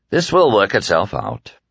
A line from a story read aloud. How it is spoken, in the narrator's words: Peter said calmly